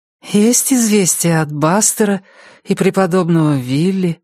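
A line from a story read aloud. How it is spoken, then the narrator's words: Sleepy. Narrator (Russian): сонно спросила она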